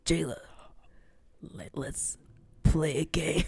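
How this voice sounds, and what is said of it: Imitating the Jigsaw voice. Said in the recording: “I'm going to do the Jigsaw voice.”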